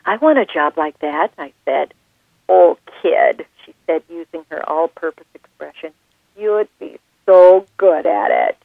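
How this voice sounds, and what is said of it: Minnesota accent. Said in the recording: “You do such a great Minnesota accent ... sometimes it's a little too close to the vest ... I sound like I could have starred in the movie Fargo”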